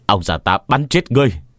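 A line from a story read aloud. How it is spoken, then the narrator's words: Old man shouting angrily. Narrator (Vietnamese): Ông già lớn tiếng hét lên, trừng mắt nhìn Quảng Nhân mà quát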